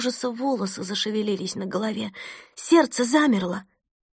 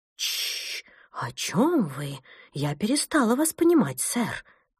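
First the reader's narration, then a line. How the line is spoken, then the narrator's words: Agitated speech. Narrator (Russian): Взволнованно произнесла Фрида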